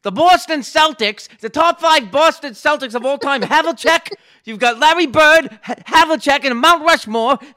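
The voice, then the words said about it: Mad Dog Russo impression. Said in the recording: “I can do a Mad Dog impression pretty good ... I want to hear the Mad Dog”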